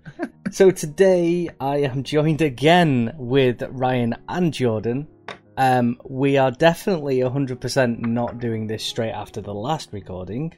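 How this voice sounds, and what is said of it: Posh telephone voice. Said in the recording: “As you can tell, I've got my telephone voice on now ... I have a posh voice when I'm doing my intros”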